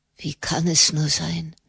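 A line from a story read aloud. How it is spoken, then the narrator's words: Whisper. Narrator (German): flüsterte er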